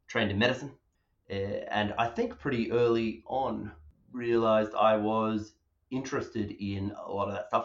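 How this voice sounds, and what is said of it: Australian accent. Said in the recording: “I hope it's very obvious that I grew up, from my accent, in Perth, Western Australia”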